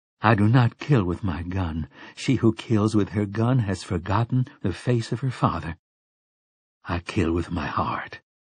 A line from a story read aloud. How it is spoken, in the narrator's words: she murmured